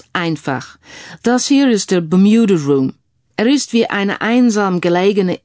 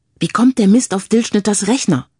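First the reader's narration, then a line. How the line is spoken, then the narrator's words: Plain question. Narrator (German): fragte Frank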